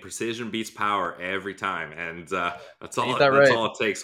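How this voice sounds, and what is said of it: Irish accent impression. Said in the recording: “Hopefully that Irish accent wasn't too bad there... that was an Irish accent... It was supposed to be Conor McGregor. I didn't doll it up too much there”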